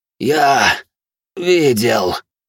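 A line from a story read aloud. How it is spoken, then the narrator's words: Furious hoarse rasp. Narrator (Russian): прохрипел яростный, как пламя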